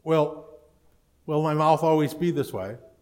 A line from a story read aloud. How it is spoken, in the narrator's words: she says